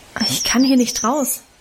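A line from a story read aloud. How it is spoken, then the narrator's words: Plain. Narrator (German): antwortete ich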